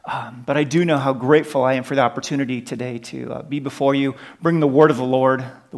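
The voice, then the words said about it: American accent. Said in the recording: “You can probably tell from my accent that we're originally from the United States”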